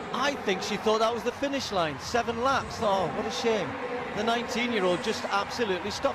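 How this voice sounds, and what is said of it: British accent. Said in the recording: “with a British accent.”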